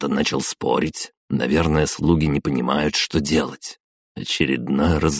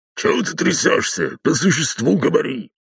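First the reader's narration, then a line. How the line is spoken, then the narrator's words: Man's rapid barking. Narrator (Russian): гаркнул мужской голос и протараторил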